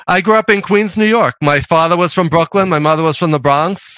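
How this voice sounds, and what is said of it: New York accent. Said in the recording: “you have this New York accent thing going ... a little bit.”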